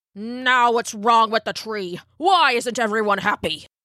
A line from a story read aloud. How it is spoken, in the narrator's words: snapped the elder